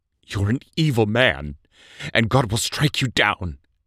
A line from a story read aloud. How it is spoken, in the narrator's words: she said in a trembling voice